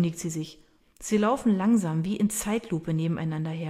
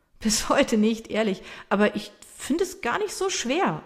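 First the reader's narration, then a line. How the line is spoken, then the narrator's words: Laughing reply. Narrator (German): erwidert er lachend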